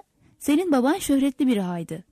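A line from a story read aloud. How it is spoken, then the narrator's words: Plain. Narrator (Turkish): dedi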